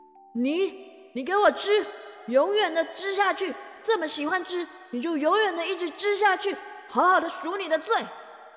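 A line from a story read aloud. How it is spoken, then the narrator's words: Loud angry scolding. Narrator (Chinese): 雅典娜女神 大声的呵斥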